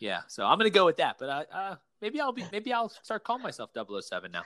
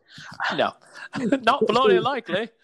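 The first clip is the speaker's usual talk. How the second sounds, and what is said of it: Put-on British accent like 007. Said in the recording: “he's 007 ... I can speak in that weird accent. You know, I could try it.”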